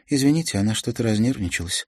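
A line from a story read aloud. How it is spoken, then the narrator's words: Plain. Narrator (Russian): сказала Беата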